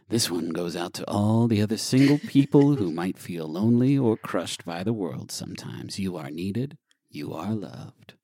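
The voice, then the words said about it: Late-night radio DJ voice. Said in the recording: “let me do this in like my late night radio DJ voice.”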